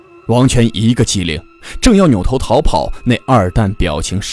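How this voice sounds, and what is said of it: Usual voice. Nothing is said of it.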